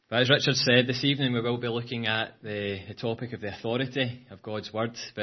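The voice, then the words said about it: Glaswegian Scottish accent. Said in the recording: “it took me 5 minutes, to tune into your accent ... my Glaswegian accent”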